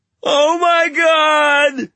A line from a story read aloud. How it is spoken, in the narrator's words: the Berg wailed